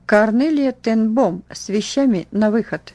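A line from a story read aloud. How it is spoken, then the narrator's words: Stern woman's metallic voice. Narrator (Russian): грозная надзирательница металлическим голосом произнесла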